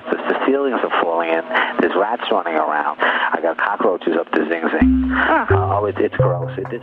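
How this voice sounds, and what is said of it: Thick Long Island accent. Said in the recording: “Reiner's thick Long Island accent”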